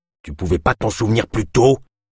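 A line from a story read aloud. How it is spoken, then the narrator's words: Hissed. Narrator (French): siffla Kolb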